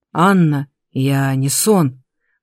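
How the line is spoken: Hoarse rasp. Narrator (Russian): прохрипело видение

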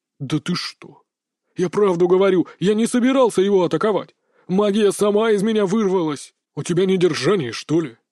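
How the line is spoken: Growling man. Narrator (Russian): зарычал мужчина в костюме

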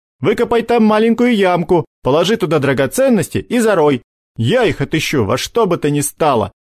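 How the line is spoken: Giggling. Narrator (Russian): Ладошка хихикнул

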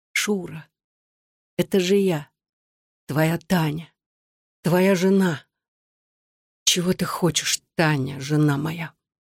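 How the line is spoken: Whisper. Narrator (Russian): прошептала

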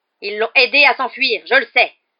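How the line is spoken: Yelling. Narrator (French): hurla Rogue

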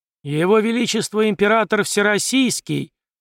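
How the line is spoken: Loud proclamation. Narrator (Russian): громко провозгласил Столыпин

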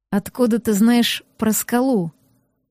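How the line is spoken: Through gritted teeth. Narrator (Russian): Процедил шерх

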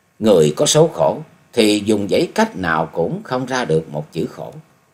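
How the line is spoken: Sighing. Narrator (Vietnamese): Chung Nhật tự thở dài nói

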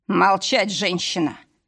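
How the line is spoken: Growled. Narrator (Russian): рыкнул

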